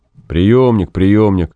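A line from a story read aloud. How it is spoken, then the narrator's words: Grumbling. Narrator (Russian): ворчал Гай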